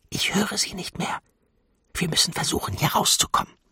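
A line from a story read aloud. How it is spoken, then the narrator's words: Whispered. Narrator (German): flüsterte sie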